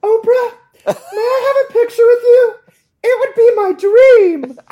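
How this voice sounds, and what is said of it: High-pitched, panicky choirboy-like voice. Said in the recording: “That is you doing my voice. ... your voice did go up quite several tones and with this sort of panic and emotion ... it was like a little choir boy”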